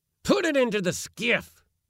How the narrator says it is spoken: roared my uncle to Yorpie

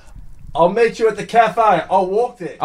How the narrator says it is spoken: yelled out to you and said

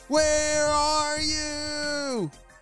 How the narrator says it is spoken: Ava shouted

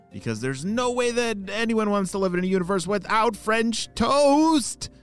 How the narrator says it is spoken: shouted Oakley

